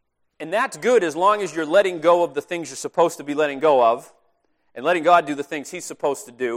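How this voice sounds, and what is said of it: Usual voice. Nothing is said of it.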